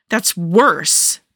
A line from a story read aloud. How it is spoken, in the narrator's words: Natasha snapped